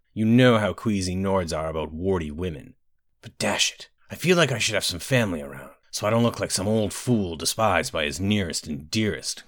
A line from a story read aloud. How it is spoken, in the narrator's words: growled the Emperor, correctly suspecting this to be the case